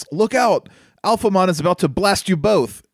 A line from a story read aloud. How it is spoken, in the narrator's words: One of the Digidestined, I don't know who, shouts